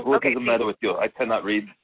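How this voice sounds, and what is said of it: Put-on German accent, grandmother voice. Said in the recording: “That's her accent. Sorry. That's her accent... So she's from Germany.”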